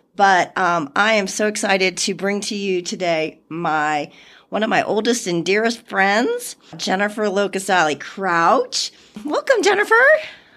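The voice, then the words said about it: Slightly raspy voice. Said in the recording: “excuse my voice a little bit. I'm fighting a little bit of a cold, so it's a little raspy,”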